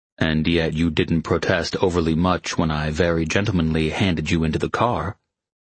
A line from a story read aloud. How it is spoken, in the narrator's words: Maddox said dryly